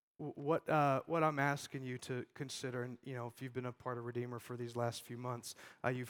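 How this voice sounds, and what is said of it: Lower, sick-sounding voice. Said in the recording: “sorry about my voice. I've been sick all week. Only my voice gets lower when I'm sick”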